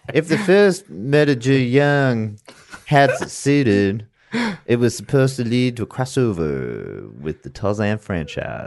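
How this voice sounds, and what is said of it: Reads in a put-on accent. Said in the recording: “I'm gonna read it in a nondescript accent.”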